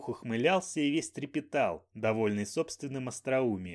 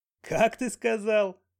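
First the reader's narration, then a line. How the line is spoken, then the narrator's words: Roaring with laughter. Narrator (Russian): Банджо аж взревел от хохота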